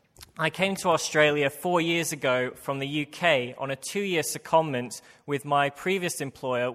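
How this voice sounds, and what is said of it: British accent. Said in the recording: “I have a British accent.”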